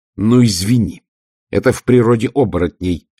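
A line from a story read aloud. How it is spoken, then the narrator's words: Barking, snapping. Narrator (Russian): рявкнула Ангва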